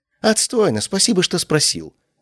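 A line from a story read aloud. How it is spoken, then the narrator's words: Snapping. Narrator (Russian): огрызнулся он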